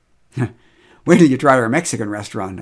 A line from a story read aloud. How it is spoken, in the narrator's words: I laughed